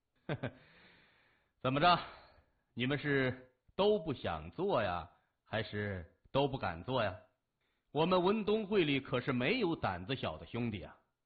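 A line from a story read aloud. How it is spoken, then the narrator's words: Laughing. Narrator (Chinese): 谢文东笑着说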